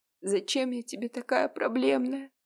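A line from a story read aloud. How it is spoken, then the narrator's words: Sobbing mumble. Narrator (Russian): всхлипывая, пробормотала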